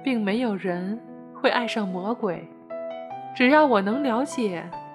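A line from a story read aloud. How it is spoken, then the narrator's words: Dying, faint soft laugh. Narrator (Chinese): 魔鬼奄奄一息的轻轻一笑说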